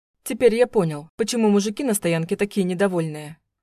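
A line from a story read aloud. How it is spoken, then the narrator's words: Amused grunt. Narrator (Russian): хмыкнул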